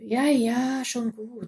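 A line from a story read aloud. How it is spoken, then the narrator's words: Resigned sigh. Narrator (German): seufzte sie und resignierte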